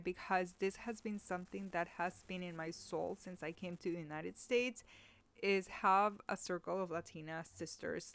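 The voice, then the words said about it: Teary, emotional voice. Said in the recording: “Oh my God, I'm getting teary eye. I'm getting teary eye”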